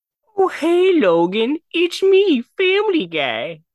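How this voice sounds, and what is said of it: Cartoon character voice impression. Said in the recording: “There's your Family Guy impression.”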